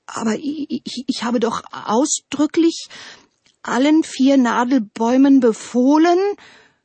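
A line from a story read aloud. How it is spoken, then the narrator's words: Stuttering. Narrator (German): stotterte der Wind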